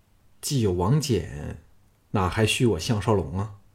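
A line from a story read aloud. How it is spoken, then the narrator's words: Charming smile. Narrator (Chinese): 小盘嘴角溢出了一丝充满摄人魅力的微笑，摇头说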